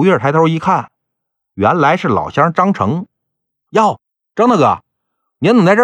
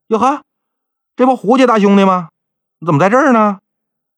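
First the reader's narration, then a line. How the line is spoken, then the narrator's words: Calling out. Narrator (Chinese): 有人喊他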